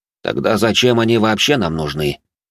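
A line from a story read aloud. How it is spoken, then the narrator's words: Irritated hateful question. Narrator (Russian): раздраженно спросил инквизитор, который ненавидел коренных жителей проклятых земель всей своей душой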